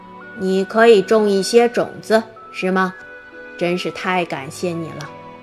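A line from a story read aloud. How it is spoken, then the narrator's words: Admiring praise. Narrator (Chinese): 月亮脸赞叹道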